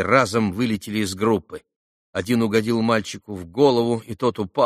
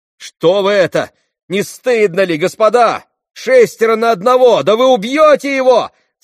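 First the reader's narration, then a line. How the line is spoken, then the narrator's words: Shouted. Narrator (Russian): закричал Алеша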